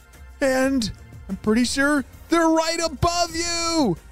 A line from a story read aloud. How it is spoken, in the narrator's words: shouted Mr